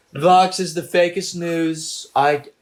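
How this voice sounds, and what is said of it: Put-on British accent. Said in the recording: “It turned into a British accent.”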